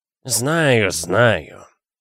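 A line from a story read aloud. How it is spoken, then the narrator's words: Gloomy. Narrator (Russian): мрачно сказал он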